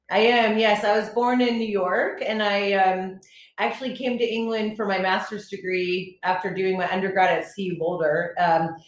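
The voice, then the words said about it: American accent. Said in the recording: “you're in the UK, but you don't have an accent. Are you American? ... it's kept my accent quite fresh.”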